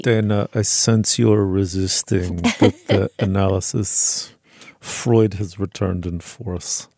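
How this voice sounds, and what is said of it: Put-on German accent, vampire-like. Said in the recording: “I can't do a German like a Freudian ... You sound like a vampire ... I sound ridiculous.”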